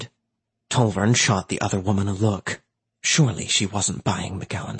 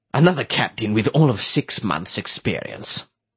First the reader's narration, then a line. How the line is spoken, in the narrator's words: McGowan said, his tone just short of a sneer